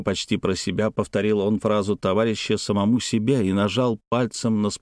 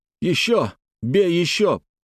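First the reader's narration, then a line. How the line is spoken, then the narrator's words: Near-shout, urgent demand. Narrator (Russian): почти закричал на друга Петр, требуя от того продолжения боевой работы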